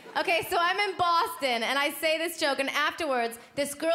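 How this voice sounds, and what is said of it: Usual voice. Nothing is said of it.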